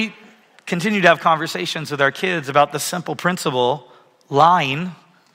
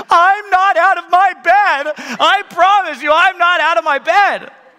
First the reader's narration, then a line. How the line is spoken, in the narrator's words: Charlie screams